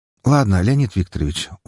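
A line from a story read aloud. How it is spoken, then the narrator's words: Weary. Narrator (Russian): устало произнес я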